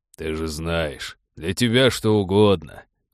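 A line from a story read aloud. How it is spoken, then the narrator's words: Deep voice, smiling. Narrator (Russian): с улыбкой пробасил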